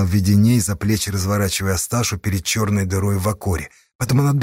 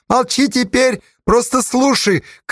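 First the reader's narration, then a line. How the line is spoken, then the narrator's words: Shout. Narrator (Russian): крикнул Веденей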